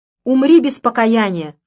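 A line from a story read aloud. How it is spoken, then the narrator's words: Shouting. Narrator (Russian): кричала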